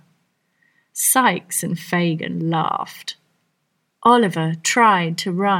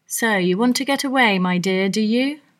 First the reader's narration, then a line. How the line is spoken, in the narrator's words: said Fagin